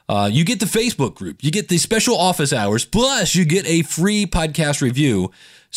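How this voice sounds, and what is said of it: Infomercial sales pitch delivery. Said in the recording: “where I sound like a Ginsu knife commercial”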